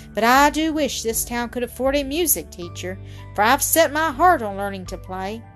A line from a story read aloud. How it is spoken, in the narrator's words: remarked Lou with a sigh